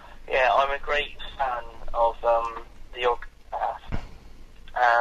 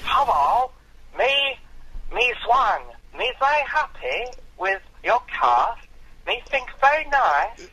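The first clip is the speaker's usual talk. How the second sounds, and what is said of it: Awful put-on accent, like Ting Tong. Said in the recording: “put on your best proletariat accent you can ... the awful accent. You sounded like Ting Tong from Little Britain”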